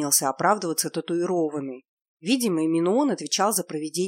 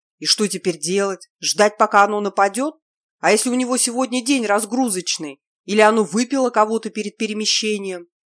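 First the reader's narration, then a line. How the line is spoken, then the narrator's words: Irritated curt remark. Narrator (Russian): Раздраженно бросил отмороженный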